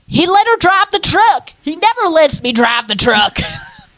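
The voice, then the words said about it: Bad put-on Southern accent. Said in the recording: “It's a really bad Southern accent”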